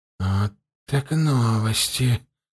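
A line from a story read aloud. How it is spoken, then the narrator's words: Whisper. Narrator (Russian): прошептал он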